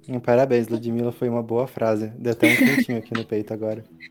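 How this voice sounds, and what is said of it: Pleasant regional accent. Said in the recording (Portuguese): “que sotaque bom”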